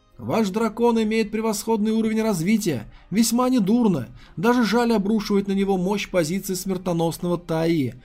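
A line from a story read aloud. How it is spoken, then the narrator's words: Shout. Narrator (Russian): крикнул Ли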